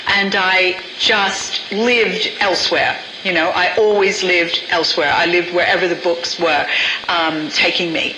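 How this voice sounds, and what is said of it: American accent. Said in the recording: “my accent betrays my American background”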